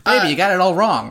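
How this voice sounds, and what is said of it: Old-timey 1930s accent. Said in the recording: “old-timey 1930s ... accents”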